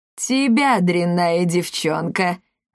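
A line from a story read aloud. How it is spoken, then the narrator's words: Malicious laugh. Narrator (Russian): злобно хохотнул Гелиодор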